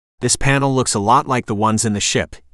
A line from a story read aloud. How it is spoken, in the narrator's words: he said